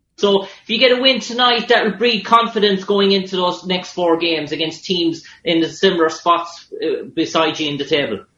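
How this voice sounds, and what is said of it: Thick Irish accent. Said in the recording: “one of the sports reporters has this thick accent ... Ireland ... I like your accent. It's tough.”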